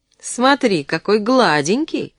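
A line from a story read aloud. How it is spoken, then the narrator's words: Cheerful. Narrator (Russian): весело сказала она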